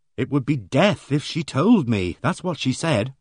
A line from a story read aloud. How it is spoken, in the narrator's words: finished Rose, rolling her eyes happily